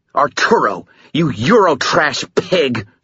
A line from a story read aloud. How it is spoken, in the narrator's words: she snarled